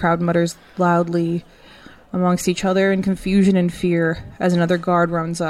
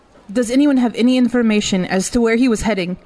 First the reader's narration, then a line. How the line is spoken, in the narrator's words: Greta shouts out over the crowd